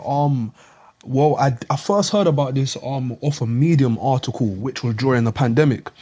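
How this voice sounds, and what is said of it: South London British accent. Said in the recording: “I'm from UK, London, um, South London ... I sound a bit different.”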